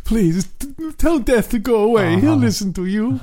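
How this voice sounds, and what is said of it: Imitates another person's voice. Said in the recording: “That's my Janko imitation.”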